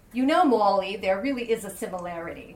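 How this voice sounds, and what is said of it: Clipped Boston accent. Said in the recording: “which I read with her clipped Boston accent”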